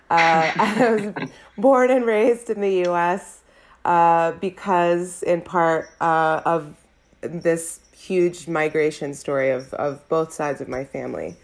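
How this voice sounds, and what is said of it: American accent. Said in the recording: “You can hear my lovely American accent.”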